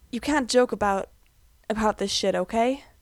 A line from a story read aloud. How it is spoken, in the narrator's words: Gerard whispers into Mikey's hair